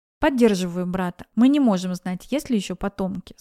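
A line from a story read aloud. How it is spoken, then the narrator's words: Plain. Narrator (Russian): сказал Кристофер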